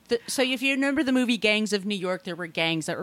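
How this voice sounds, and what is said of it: Usual voice. Nothing is said of it.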